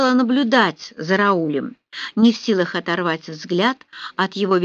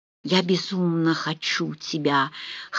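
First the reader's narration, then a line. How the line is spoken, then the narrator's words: Hoarse moan. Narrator (Russian): хрипло простонал он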